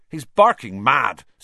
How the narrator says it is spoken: said Seamus Finnegan angrily to Percy

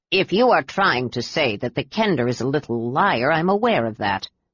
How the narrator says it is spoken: stated Derek impatiently

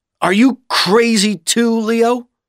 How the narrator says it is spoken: Bud said angrily

